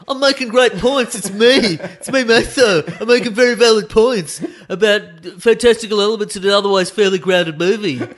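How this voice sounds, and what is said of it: Impression of a co-host. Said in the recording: “It's a good impression of me. It's a good that's a fantastic impression of you doing an impression of me”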